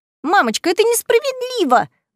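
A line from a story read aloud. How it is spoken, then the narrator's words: Shrill exclamation. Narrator (Russian): визгливо воскликнула Беатрис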